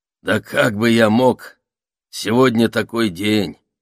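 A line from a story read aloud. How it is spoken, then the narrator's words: Low hoarse voice. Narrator (Russian): ответил вошедший низким хриплым голосом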